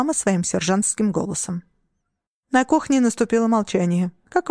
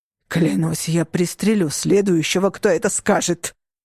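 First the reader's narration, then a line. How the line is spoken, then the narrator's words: Growled. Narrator (Russian): прорычал Леон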